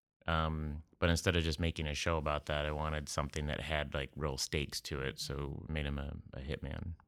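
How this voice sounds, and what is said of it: Whiny Midwestern accent. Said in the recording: “you have the least Oklahoma accent of any Oklahoman ... I have just kind of like a weird, whiny Midwestern accent.”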